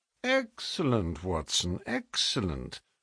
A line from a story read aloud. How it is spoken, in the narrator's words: murmured